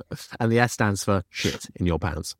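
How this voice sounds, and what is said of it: Put-on Cockney accent. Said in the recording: “Why did you go Cockney?”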